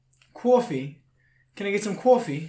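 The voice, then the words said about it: Put-on New York accent. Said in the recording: “I think it was a New York accent.”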